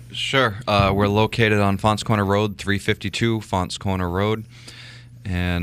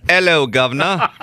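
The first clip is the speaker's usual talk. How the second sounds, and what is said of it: Put-on Cockney English accent. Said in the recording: “with an English accent ... That's Cockney.”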